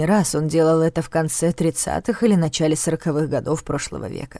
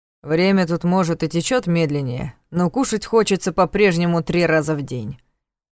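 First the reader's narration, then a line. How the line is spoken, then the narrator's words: Grim joking. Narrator (Russian): мрачно пошутил Ваня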